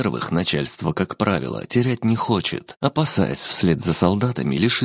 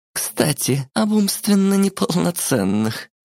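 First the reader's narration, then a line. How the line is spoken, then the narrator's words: Sudden giggle. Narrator (Russian): хихикнула вдруг Шура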